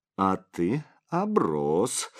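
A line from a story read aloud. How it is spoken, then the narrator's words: Cooing. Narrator (Russian): проворковала Анжелика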